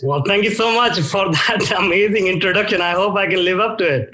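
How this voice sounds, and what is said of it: Indian accent. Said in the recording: “from your accent, it doesn't sound like you were born there ... I'm from India originally”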